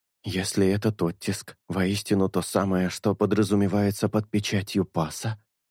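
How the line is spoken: Whisper. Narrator (Russian): прошептал Шелк

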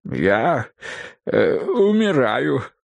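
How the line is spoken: Weak moan. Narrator (Russian): слабым голосом простонал он

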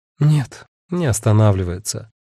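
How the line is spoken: Sigh. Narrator (Russian): вздохнула Агата

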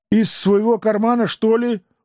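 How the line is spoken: Listless grumbling. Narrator (Russian): Уже куда более вяло продолжал ворчать я

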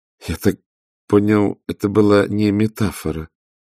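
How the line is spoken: Even, flat voice. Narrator (Russian): ровным голосом произнес Лапсанг

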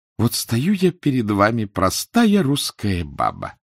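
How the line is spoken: Passionate coo. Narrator (Russian): Страстно проворковала

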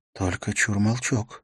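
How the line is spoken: Quiet, to an animal. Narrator (Russian): негромко обратилась она к животному

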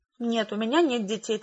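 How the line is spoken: Hurried reply. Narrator (Russian): торопливо ответила я

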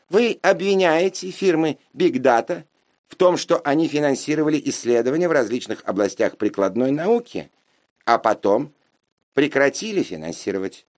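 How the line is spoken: Squeaky child prodigy. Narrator (Russian): пропищал вундеркинд

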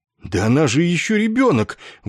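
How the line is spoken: Indignant exclamation. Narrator (Russian): возмущенно воскликнул Ессариан

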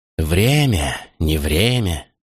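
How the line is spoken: Weary interjection. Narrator (Russian): устало вмешался ночной волк

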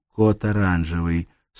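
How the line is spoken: Calm into microphone. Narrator (Russian): сказала она спокойно в микрофон своего устройства

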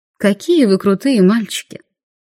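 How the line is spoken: Purring. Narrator (Russian): промурлыкала я

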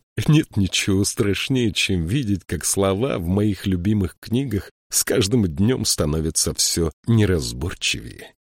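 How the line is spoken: Embarrassed laugh. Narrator (Russian): он смущенно рассмеялся

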